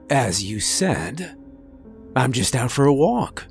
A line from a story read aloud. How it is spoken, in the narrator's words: Adarin replied